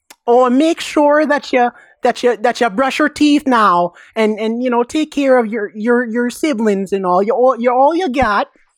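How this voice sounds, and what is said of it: Put-on Midwestern mom voice. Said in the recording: “I could do a mom voice ... I don't know why she's Swedish, but she is now ... you were doing a Wisconsin accent there”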